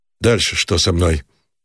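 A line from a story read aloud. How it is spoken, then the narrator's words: Hoarse question. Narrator (Russian): спросил хрипло Никитин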